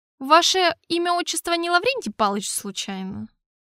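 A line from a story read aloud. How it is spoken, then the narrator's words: Skeptical snort. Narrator (Russian): хмыкнул я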